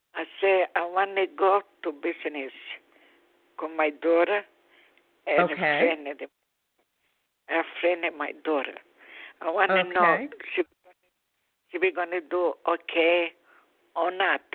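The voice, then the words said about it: Strong foreign accent. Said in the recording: “your accent is very strong”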